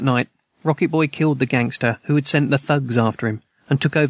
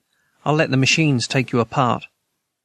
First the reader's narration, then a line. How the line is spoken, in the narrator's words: Rocket Boy said calmly